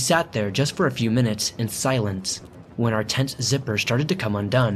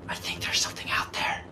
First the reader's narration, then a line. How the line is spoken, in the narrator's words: whispered